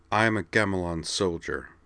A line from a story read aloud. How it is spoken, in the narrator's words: Amanda replied grimly